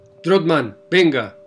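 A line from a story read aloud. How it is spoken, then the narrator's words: Shouted order. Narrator (Spanish): me gritó el sargento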